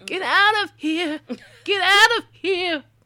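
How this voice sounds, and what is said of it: Shouted ghostly miner character voice. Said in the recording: “That's just my impersonation.”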